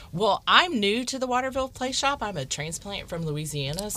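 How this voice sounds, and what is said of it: Louisiana Southern US accent. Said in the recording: “Since you said Louisiana, I heard that accent. ... That accent.”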